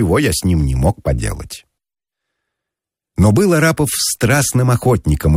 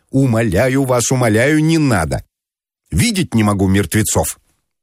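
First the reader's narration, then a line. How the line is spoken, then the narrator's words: Shouting. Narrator (Russian): кричал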